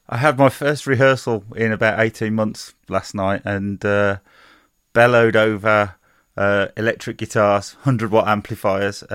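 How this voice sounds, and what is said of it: Slightly hoarse voice. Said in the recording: “slightly hoarse. If you notice a change in his voice tonight, he's slightly hoarse.”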